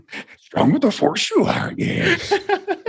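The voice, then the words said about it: Yoda impression. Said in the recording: “your Yoda impression”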